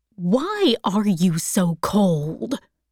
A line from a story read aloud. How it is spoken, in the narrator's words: said in an annoyed voice